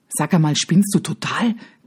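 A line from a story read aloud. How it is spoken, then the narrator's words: Horrified hiss. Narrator (German): zischt sie entsetzt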